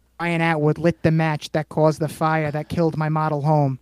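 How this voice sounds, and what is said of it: Leonardo DiCaprio Shutter Island accent. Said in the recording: “Shutter Island. ... And you did the accent,”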